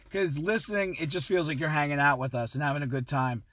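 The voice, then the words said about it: Hoarse, strained voice. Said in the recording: “My voice is going out because we got crazy on this podcast. I have a cup full of honey.”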